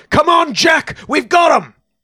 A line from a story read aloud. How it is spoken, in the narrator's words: The man looked toward the tree line off to the left and yelled